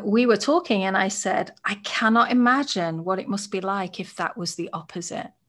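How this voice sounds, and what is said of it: British English accent. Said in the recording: “as a british white woman ... people think i'm intellectual just because of my accent”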